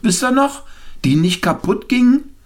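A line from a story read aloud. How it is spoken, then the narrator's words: Calling to the group. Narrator (German): rief jemand in die Runde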